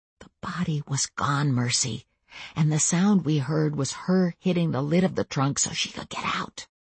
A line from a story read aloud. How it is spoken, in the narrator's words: said very softly